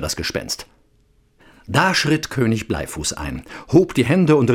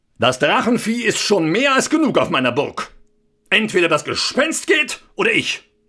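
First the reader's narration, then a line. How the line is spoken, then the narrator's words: Called out. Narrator (German): Er rief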